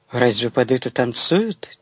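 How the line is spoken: Quiet question. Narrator (Russian): тихо спросил Павел у Тани

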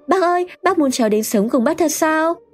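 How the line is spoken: Girl exclaiming. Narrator (Vietnamese): Cô bé thốt lên

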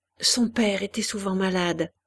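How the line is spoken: Gentle. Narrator (French): reprit doucement Hélène

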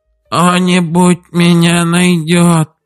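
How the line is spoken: Hoarse rasp. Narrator (Russian): прохрипел он

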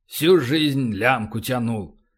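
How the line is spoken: Grumbling. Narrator (Russian): проворчал Полубой

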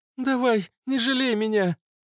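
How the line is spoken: Moaning. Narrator (Russian): Простонала Фитилек

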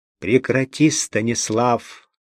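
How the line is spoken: Irritated. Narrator (Russian): раздраженно среагировал

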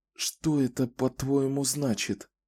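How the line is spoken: Fearful whisper. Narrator (Russian): шепотом спросила она, словно мертвые могли ее услышать

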